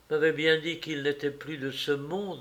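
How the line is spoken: Murmured. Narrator (French): murmura-t-elle

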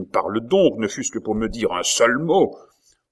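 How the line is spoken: Exclaimed. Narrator (French): s'écria Catherine

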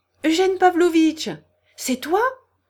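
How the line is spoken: Fresh melodious call. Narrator (French): cria soudain une voix fraîche et mélodieuse

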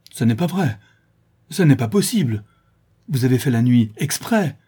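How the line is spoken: Straining, agitated exclamation. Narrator (French): s'écria le brigand en faisant de violents efforts sur son fauteuil

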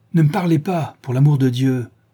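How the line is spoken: Angry shout. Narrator (French): cria, frappant du pied

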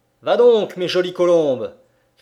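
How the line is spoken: Shout over whip and thunder. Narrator (French): cria Liemchik en mêlant les claquements de son fouet au roulement du tonnerre

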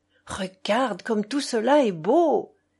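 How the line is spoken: Grandmother exclaiming repeatedly. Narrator (French): s'écrie à chaque instant grand-mère

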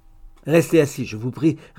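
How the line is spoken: Curt reply. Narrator (French): répliqua sèchement

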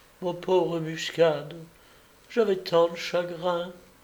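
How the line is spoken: Murmuring. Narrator (French): Elle murmura

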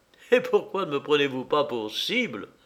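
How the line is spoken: Laughing stranger asking. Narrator (French): demanda en riant l'étranger

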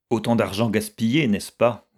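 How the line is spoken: Curt. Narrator (French): dit Violette d'un ton sec

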